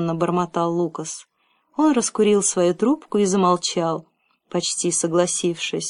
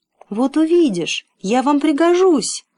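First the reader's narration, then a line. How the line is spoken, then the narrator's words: Desperate pleading. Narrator (Russian): отчаянно взмолился он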